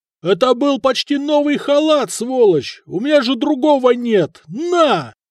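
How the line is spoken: Warrior yelling. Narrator (Russian): воин заорал

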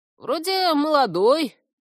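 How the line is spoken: Thoughtful creaky voice. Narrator (Russian): раздумчиво проскрипел корневик

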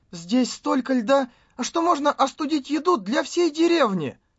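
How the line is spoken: Trembling voice. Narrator (Russian): Алиса дрожащим голосом произнесла

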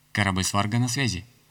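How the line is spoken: Plain. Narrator (Russian): ответил Коперник

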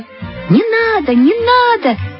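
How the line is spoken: Shouting in chorus. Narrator (Russian): закричали все

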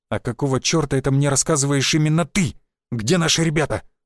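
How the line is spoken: Angry question. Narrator (Russian): зло спросил он

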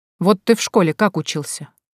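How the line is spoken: Calm father. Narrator (Russian): спокойно ответил вопросом на вопрос отец

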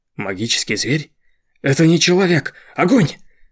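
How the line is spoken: Commander shouting. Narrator (Russian): закричал командир

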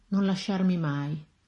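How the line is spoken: Soft sighing voice. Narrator (Italian): con un leggero sospiro disse

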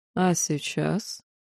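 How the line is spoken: Quiet. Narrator (Russian): тихо произнес Тейлран

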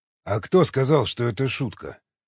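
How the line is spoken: Sighing. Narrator (Russian): Николай вздохнул

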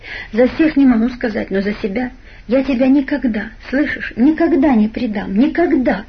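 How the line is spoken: Tender voice. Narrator (Russian): в голосе слышалась такая нежность

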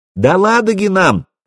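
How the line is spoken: Shout. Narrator (Russian): крикнула Заря

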